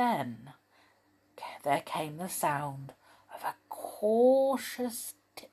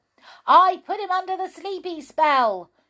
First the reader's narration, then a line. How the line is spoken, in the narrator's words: shouted the goblin